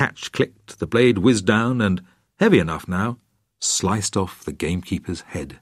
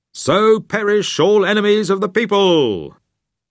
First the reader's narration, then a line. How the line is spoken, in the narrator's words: Ralph suddenly shouted